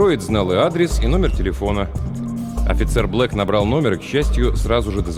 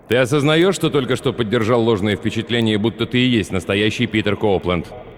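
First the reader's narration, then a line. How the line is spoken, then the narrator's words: Stern question. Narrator (Russian): суровым тоном спросил Питера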